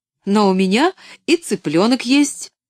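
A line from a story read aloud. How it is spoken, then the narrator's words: Cheerful exclamation. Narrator (Russian): весело воскликнула Поллианна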